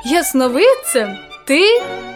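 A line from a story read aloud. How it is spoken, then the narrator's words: Father laughing. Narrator (Ukrainian): засміявся батько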